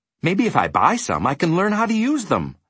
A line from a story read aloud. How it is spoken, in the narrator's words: said Milo eagerly